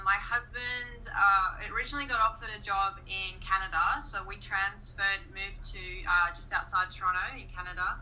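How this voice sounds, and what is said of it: Australian accent. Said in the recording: “I'm uh, Australian, uh, hence the accent.”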